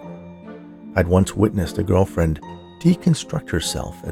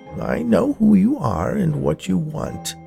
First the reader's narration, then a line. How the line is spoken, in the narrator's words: she said in a creaky voice